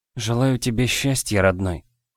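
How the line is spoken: Whispered. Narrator (Russian): прошептала в темноту

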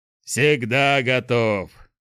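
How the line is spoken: Growl. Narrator (Russian): прорычал Шухрак

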